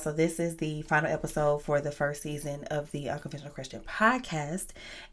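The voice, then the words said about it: Cracky, unwell-sounding voice. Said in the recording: “excuse my voice. I'm really under the weather ... if my voice sounds a little cracky”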